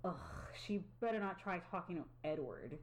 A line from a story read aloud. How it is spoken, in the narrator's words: Casey angrily stated